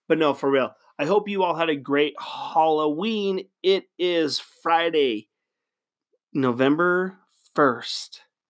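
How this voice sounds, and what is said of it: Voice sounds a little low. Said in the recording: “my voice is a little down today”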